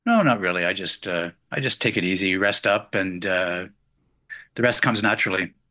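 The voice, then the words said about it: Canadian accent. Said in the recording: “I hear your Canadian accent too ... you have a beautiful one”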